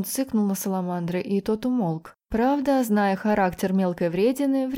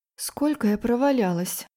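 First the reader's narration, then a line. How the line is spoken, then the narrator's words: Quiet question. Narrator (Russian): спросила тихо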